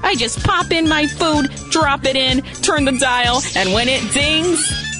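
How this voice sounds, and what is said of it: Brooklyn accent. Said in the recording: “one of the Star Wars characters has a Brooklyn accent”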